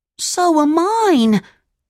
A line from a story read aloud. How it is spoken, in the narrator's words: cried Pinocchio